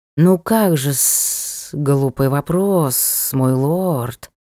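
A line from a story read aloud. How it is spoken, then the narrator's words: Hissing snake. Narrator (Russian): прошипел змей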